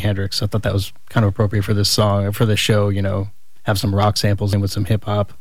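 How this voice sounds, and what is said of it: Fast-talking polished radio voice. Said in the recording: “you're a fast talker. He has a great radio voice”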